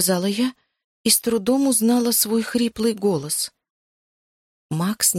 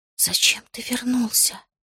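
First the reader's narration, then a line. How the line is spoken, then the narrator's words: Whisper. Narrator (Russian): прошептала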